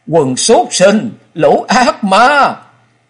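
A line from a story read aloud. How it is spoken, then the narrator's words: Exhausted, hateful wretched scream. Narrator (Vietnamese): Nàng không khỏi căm hận trừng mắt, máu miệng không ngừng ứa ra, sức tàn lực kiệt, nàng gào lên thê thảm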